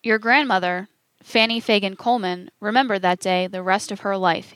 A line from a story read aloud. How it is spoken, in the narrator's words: he said